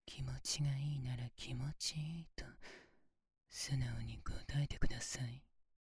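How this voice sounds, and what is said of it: Whispering. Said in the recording (Japanese): “こうやってささやかれるのはどうですか”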